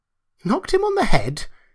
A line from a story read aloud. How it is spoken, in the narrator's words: exclaimed Kemp